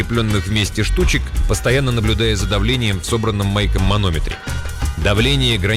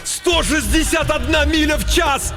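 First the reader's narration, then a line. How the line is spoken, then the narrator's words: Yelling. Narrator (Russian): Майк завопил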